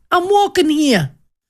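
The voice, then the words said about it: Put-on New York accent. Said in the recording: “That's my New York ... I'm not doing another accent”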